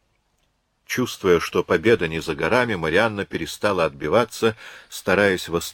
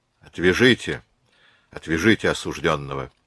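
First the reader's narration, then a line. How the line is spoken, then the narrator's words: Dry curt command. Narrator (Russian): Сухо приказал он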